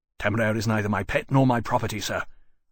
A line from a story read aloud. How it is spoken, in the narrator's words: Lawrence snapped